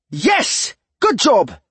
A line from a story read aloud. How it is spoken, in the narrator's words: exclaimed Alder